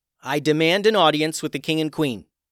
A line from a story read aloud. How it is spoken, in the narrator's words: yelled